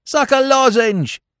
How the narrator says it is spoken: shouted someone

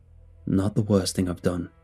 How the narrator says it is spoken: one of the men sighed

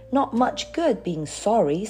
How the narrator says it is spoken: said Peter gloomily

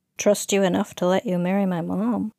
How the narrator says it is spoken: she mumbled

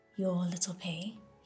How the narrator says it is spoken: he asked

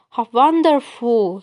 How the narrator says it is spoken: he cried

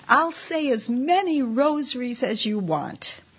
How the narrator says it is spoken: exclaimed

